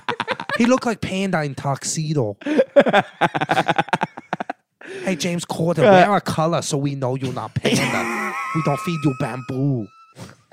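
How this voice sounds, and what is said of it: Put-on comedic accent. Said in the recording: “The accent will never not be funny to me. It's so fucking funny to me. ... You're really good at it.”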